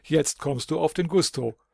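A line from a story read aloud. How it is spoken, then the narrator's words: Laughing. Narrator (German): lachte Holdrio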